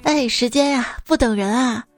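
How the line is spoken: Sighing. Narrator (Chinese): 叹息了一声

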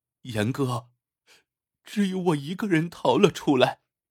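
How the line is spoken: Sorrowful voice. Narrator (Chinese): 女人声音悲戚

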